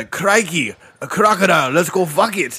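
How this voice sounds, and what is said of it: Put-on Australian animal show host. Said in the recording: “Imagine like somebody being like an Australian like animal show.”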